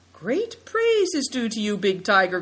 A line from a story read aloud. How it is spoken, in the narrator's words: cried Naidong